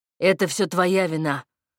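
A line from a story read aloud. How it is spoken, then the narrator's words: Growling. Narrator (Russian): рычал Платон на Игоря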